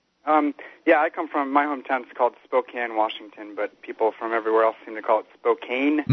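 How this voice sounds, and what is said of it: American accent. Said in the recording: “sorry about the American accent from Australia.”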